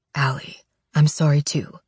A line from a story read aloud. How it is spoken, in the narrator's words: Wade whispers